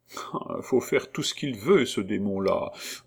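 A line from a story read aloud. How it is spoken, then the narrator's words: Grumbling shopkeeper woman. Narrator (French): grommela la marchande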